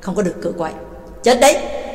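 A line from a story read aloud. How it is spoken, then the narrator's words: Cold. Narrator (Vietnamese): Ba Tàng lạnh lùng nói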